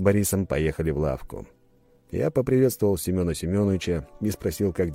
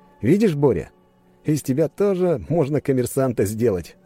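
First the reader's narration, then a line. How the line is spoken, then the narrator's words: Laughing. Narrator (Russian): рассмеялся я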